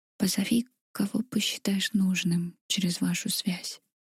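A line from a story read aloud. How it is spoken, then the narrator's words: Whisper against lips. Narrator (Russian): прошептал он мне в губы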